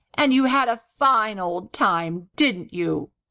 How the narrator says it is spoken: replied the gobbler coldly

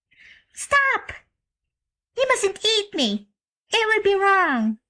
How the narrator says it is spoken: the child had a sudden thought and cried out

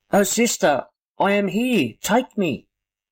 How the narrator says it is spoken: the child cried

